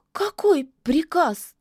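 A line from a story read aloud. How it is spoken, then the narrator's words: Trembling babble. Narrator (Russian): дрожащим голосом пролепетала яга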